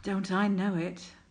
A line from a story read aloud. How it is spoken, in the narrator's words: Crowley sighed